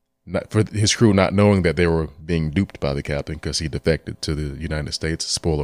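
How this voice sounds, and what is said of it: Usual voice. Nothing is said of it.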